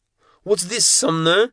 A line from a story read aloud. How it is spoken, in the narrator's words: Kazakov spat